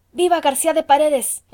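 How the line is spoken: Group exclaiming. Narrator (Spanish): exclamaron entonces los españoles

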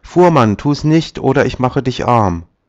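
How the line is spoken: Calling out. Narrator (German): Da rief er

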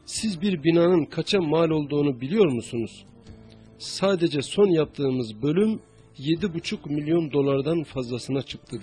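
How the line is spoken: Plain. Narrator (Turkish): dedi

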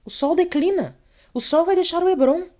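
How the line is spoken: Terrified shout. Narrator (Portuguese): gritou um levita, aterrado

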